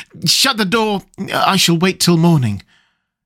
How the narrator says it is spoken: as a last chance I cried out

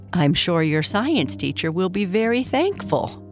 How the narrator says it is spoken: Papa Bear said, laughing

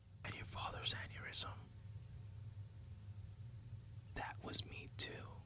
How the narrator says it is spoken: whispers into his ear

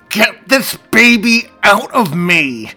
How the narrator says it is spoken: through it and her breathing, she managed to choke out through gritted teeth

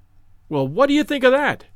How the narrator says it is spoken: cried the detective, with the air of a showman exhibiting his show

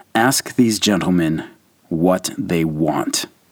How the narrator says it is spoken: Foch turned to his interpreter to say in a low, icy undertone

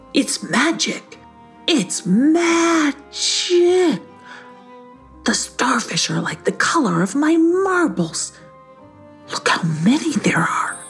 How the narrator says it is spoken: Hissyfit gasped and said

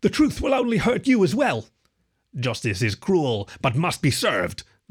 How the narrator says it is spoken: grunted Jim

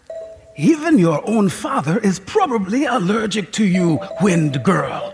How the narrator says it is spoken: she said in her phlegmy voice

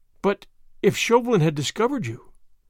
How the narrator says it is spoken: she gasped

